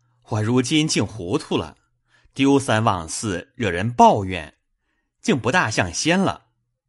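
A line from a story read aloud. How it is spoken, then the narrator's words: Smiling. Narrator (Chinese): 贾琏垂头含笑，拍手道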